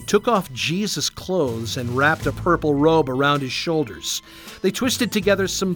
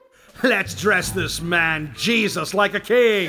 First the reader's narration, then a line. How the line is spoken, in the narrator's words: The gang of soldiers shouted